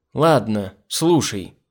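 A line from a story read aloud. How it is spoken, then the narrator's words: Female exclamation. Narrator (Russian): воскликнула Нора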